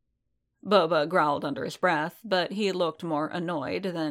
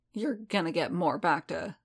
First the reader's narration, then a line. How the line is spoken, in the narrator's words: Boba grumbled